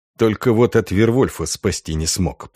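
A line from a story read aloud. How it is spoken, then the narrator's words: Grumbled. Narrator (Russian): пробурчал Дан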